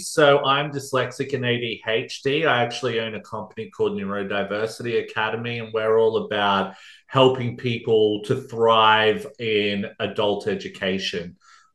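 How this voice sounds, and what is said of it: Strong Australian accent. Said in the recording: “I'm from Australia, if you can't tell by my accent. pretty strong accent,”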